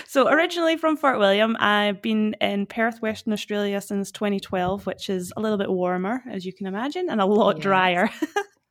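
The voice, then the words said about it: Scottish accent. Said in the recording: “clearly a Scottish accent. It's a gorgeous accent.”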